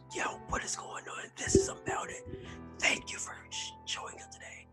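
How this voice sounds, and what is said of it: Whispering. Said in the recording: “Why are we fucking whispering?”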